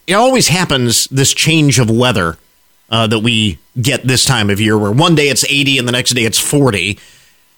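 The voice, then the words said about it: Rough, congested voice. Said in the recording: “Voice under construction today ... my voice is a little rough today ... I get these sinuses draining”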